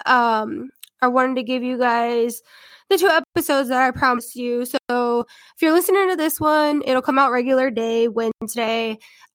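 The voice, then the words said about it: Congested, sniffly head-cold voice. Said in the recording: “I don't know if you guys can hear it, because I definitely can, but I'm sick now. ... I'm really congested. ... Just a head cold. ... my weird voice ... all of my sniffles”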